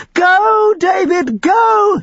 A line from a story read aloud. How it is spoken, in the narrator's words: screamed